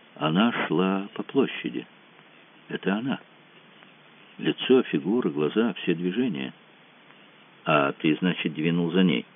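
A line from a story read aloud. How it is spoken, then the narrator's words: Quiet deep exhale, then speaking. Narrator (Russian): Выдохнул тихо, глубоко, сказал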